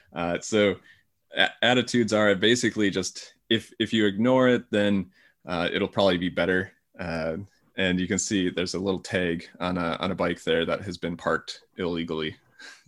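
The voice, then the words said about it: American accent. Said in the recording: “I'm an American, obviously you can tell from my accent”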